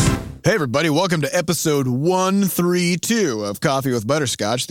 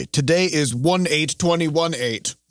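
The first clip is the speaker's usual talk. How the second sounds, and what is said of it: Robotic monotone delivery. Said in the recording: “You sound like a robot.”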